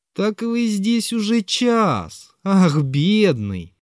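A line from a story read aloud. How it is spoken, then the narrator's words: Mocking exclamation. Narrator (Russian): вскрикнул насмешливо Зверков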